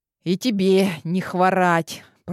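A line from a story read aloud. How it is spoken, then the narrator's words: Grumbling. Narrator (Russian): пробурчала я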